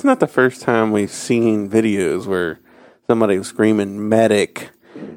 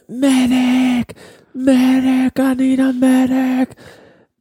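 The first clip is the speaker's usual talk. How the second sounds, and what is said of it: Screaming. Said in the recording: “He's screaming,”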